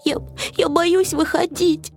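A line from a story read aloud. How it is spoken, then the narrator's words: Sobbing. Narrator (Russian): всхлипнул Финдус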